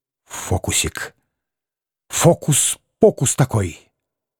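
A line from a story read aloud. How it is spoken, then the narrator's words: Repeated whispering. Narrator (Russian): Все шептал штабс-капитан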